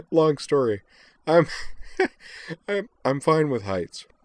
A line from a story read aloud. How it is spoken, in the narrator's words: When she'd recovered somewhat, gasping